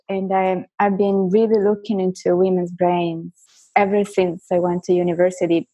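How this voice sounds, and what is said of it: Italian and French accented English. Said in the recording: “my accent ... I was born and raised in Florence in Italy, but I went to a French high school. So I think, you know, Italian is my first language and French is my second language. So English is my third, and it suffers because of the other two.”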